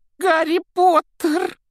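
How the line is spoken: Shrill exclamation. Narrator (Russian): пронзительным голосом воскликнул неожиданный гость

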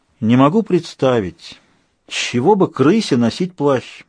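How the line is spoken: Heavy sigh. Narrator (Russian): сказала госпожа Сьюзен, тяжело вздохнула

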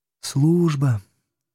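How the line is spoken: Sighing drawl. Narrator (Russian): вздохнув, протянула Алена

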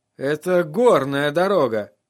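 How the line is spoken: Breathed out. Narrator (Russian): выдохнул Тирион

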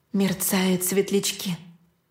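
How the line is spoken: Whispered spell. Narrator (Russian): шепнула я невинное заклинание

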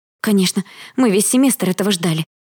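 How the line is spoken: Panicked exclamation. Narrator (Russian): воскликнула я в панике

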